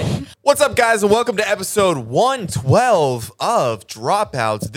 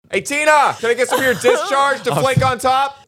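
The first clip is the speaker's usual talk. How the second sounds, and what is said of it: Shouting loudly. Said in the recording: “Sir, we can hear you. You're shouting.”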